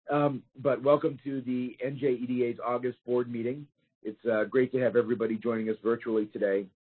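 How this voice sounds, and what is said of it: Weak voice from a cold. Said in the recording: “I've suffered through a little cold this weekend, so my voice is a little weak.”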